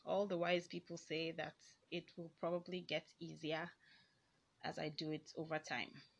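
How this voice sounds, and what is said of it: Shaky, nervous voice. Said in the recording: “I think my voice is really shaky. That's because I'm nervous as fuck.”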